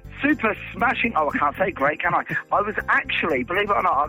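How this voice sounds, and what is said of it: Usual voice. Nothing is said of it.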